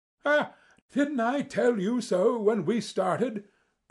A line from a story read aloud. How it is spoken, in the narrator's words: cried Sherlock Holmes with a laugh